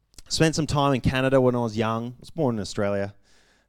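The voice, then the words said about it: Australian speaker with Canadian-tinged accent. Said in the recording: “I have an accent ... I sound a little bit different ... Spending time in Canada, picked up an accent ... in Australia, I sound different ... In America, I sound different.”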